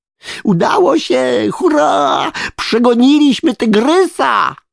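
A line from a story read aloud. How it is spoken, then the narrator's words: Shouting in triumph. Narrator (Polish): wrzasnąłem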